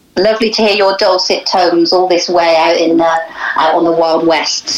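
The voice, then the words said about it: Western accent with a burr. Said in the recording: “You have a fabulous accent there, fabulous Western accent... it's quite a burr isn't it? I sound like I should have cider coming out of the taps.”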